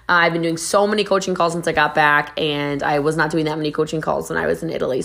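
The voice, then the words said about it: Strained, worn-out voice. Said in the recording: “apologize for my voice... So, bam, losing the voice. Got to get out the throat coat.”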